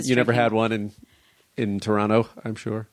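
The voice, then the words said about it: Sarcastic tone. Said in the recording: “You might be being sarcastic”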